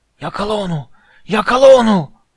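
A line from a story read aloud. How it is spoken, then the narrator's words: Shouted again. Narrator (Turkish): diye bağırdı yine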